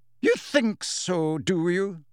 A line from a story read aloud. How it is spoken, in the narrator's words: said Professor McGonagall scornfully